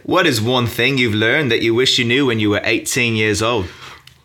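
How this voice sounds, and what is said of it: Put-on Australian accent. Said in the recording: “I'll ask you in my best Australian accent”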